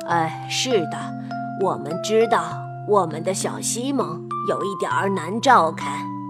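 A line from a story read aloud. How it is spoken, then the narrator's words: Sighing. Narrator (Chinese): 伯蒂德蒙先生叹了一口气，说道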